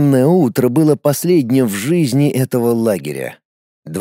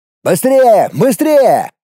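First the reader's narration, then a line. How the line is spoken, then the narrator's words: Urgent shout. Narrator (Russian): кричал мужчина на водителя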